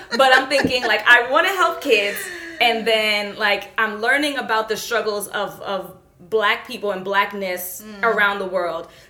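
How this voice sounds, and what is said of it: New York Brooklyn accent. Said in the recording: “you could probably tell by my voice. At minimum, you know I'm a New Yorker and I'm a Brooklynite”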